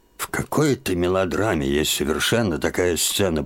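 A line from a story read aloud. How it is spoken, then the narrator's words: Mutter. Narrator (Russian): пробормотал он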